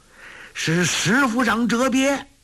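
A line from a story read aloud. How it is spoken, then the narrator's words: Soldiers shouting together. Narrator (Chinese): 众兵叫道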